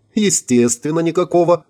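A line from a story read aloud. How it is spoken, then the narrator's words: Laughing. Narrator (Russian): Рассмеялась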